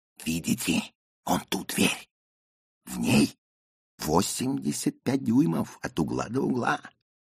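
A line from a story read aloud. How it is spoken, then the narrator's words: Theatrical whisper. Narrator (Russian): выдаст театральным шепотом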